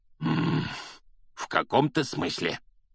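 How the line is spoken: Growled. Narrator (Russian): прорычал дядя Вернон

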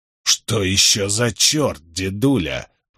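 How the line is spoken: Through clenched teeth. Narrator (Russian): процедил Джеральд

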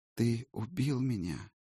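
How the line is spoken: Quiet sad female voice. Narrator (Russian): негромко сказал женский голос, печально, но без гнева или даже злобы

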